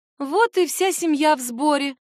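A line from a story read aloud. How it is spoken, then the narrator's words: Joyful exclamation, mother. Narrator (Russian): радостно восклицает мама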